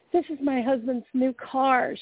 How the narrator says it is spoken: she screamed

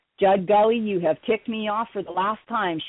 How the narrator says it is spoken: hollered yelled

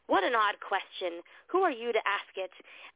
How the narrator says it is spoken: The man answered angrily

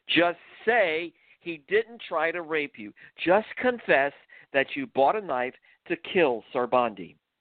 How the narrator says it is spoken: One of the tall, muscular interrogators screamed

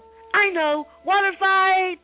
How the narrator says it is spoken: shouted the monkey

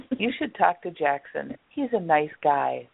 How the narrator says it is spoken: the receptionist said

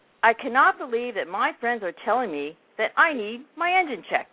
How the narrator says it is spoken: Bigfoot shouted

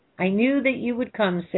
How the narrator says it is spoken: said Prometheus

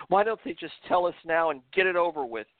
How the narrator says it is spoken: the panic-stricken woman cried out in a frantic tone

